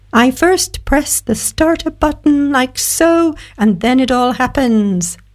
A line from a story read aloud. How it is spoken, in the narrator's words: he squeaked